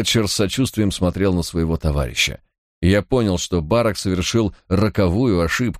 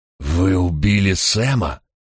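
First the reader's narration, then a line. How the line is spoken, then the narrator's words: Hoarse, genuinely pained. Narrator (Russian): В хриплом голосе Токи послышалась неподдельная боль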